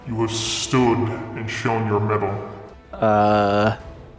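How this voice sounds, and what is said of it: Deep voice, strange unplaceable accent. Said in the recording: “deep voice. It's got a strange accent that you can't quite put together ... with an odd accent”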